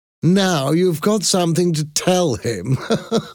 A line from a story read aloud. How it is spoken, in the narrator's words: laughed